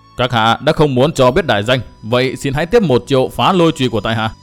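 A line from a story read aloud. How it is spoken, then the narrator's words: Angry, feeling mocked. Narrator (Vietnamese): cảm thấy mình như đã bị đối phương bỡn cợt, tức giận nói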